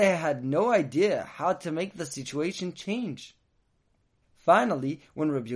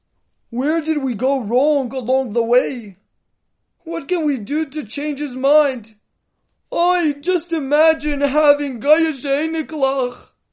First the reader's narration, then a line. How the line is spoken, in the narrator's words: They only cried to each other